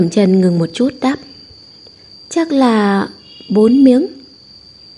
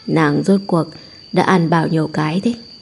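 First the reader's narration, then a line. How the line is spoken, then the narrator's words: Low laughing question. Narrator (Vietnamese): Lục Yến thấp giọng cười hỏi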